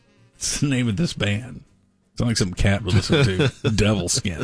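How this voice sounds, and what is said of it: Usual voice. Nothing is said of it.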